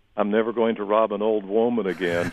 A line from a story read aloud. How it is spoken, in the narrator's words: began to laugh and say